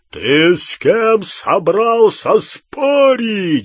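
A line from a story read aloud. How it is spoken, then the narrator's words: Roaring. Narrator (Russian): взревел Гарри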